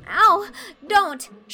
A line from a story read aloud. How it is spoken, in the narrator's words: shrieked poor Anne